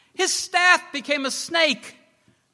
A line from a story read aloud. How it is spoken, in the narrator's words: they shouted to the others